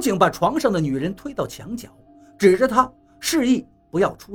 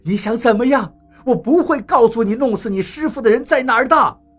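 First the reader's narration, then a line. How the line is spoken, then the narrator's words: Shouting. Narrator (Chinese): 麻哥喊道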